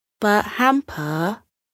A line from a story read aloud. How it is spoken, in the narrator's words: Coco said gently